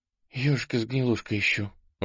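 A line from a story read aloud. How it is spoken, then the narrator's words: Breathless exhale. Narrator (Russian): выдохнула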